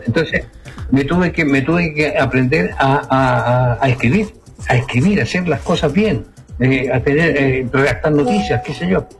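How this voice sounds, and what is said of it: South American Spanish accent. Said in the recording (Spanish): “Por el acento que tengo... Tengo un acento muy sudaca. Muy sudaca le llaman aquí.”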